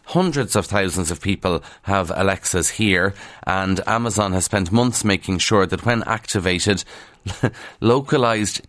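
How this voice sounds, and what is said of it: Irish accent, dropped TH sounds. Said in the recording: “an Irish accent in Ireland ... in some parts of the country we don't pronounce our THs. I'm from Kildare, and it's a big struggle to sometimes pronounce the TH”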